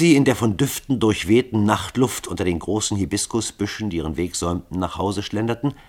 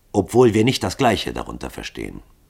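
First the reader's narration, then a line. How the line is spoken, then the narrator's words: Calm answer. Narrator (German): antwortete Hall ruhig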